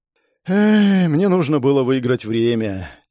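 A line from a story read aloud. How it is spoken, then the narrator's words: Heavy sigh. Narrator (Russian): тяжело вздохнул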